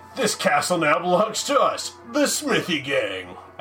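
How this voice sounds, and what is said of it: Dramatic movie announcer voice. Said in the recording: “I just have to pretend I'm from Mortal Kombat ... I'm just going to stick with that voice ... I'm just movie announcer voice now”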